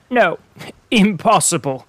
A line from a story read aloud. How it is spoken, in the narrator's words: said Prince Andrew, laughing